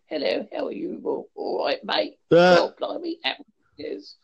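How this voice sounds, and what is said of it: Stereotypical British accent, exaggerated. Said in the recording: “your typical accent you may hear on the American TV”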